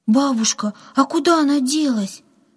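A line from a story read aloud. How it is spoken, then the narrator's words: Frightened question. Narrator (Russian): испуганно спросила Катя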